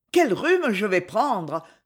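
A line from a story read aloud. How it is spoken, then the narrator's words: Sighing. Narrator (French): soupira la victime de cette fâcheuse aventure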